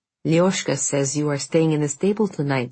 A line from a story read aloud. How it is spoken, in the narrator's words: said Irina